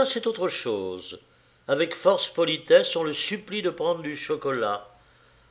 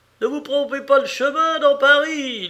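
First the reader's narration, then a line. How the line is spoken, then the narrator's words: Cyclist shouting. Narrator (French): crie un cycliste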